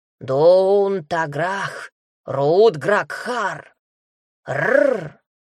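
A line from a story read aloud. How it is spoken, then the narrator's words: Menacing bear growl. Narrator (Russian): Рычание медведицы стало угрожающим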